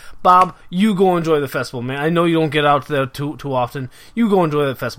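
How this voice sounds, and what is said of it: Put-on accent drifting all over. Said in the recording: “I don't know what my accent's doing here. I got no clue. ... It just goes all over the place.”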